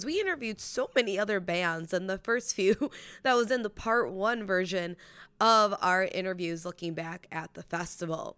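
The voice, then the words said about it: Slightly raspy voice. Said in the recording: “my voice is kind of back. So a little raspy”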